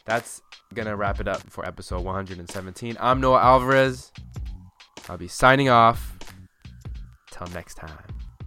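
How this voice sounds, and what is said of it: Tired-sounding voice. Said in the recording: “My voice is kind of getting tired.”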